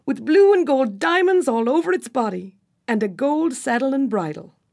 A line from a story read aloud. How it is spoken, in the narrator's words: said Trembling happily